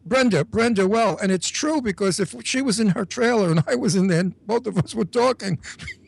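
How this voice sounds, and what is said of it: New York accent. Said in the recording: “we both have that New York accent”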